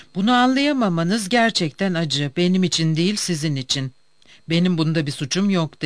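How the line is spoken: Plain. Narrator (Turkish): dedi

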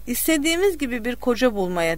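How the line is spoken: Mother, laughing. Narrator (Turkish): dedi annesi gülerek

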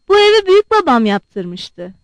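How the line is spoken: Plain. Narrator (Turkish): dedi

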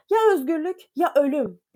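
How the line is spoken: Shouted. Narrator (Turkish): diye bağırdı

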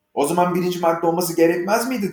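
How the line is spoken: Plain. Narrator (Turkish): dedi Alice

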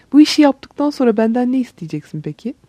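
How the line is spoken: Child laughing. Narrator (Turkish): Çocuk gülerek

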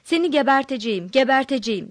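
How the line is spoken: Shouting. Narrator (Turkish): diye bağırıyordu

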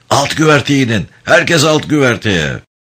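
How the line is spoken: Shouting. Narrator (Turkish): Anders bağırdı

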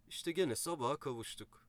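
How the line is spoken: Plain, an uncle. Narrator (Turkish): dedi dayım

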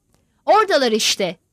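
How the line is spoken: Shouted. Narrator (Turkish): diye bağırdı

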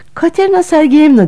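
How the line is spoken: Trembling voice. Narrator (Turkish): dedi titrek bir sesle Arkady

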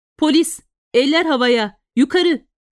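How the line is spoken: Shouted. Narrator (Turkish): diye bağırdı

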